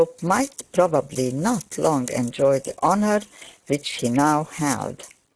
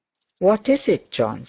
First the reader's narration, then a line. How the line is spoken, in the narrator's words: said the bishop